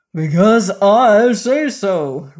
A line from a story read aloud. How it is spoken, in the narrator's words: roared Belvedere